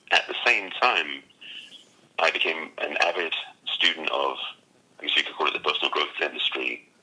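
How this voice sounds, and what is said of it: English accent. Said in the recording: “it's obvious from your accent that you come from England”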